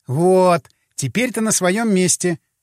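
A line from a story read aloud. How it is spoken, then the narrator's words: Laughing. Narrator (Russian): Мила засмеялась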